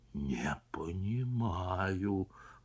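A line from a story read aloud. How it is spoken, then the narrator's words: Whisper. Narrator (Russian): прошептал Пересолин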